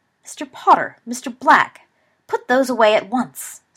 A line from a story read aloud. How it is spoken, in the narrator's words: Slughorn said sharply